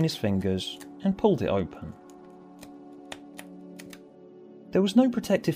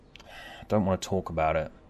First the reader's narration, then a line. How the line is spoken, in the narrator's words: George sighed